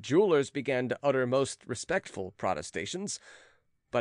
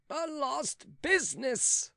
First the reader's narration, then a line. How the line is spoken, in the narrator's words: groaned the valet